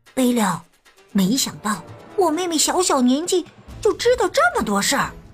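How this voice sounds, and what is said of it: Speaking in a soft, quiet voice. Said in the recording (Chinese): “小声”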